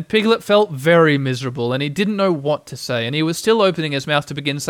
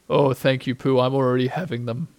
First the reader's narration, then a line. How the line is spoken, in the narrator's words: said Eeyore gloomily